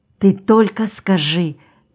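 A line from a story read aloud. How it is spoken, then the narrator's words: Hurried whisper. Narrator (Russian): торопливо шептала она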